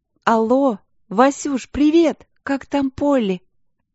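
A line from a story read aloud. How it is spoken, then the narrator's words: Ringing, cheerful. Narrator (Russian): Алинка была весела, голос звучал звонко и радостно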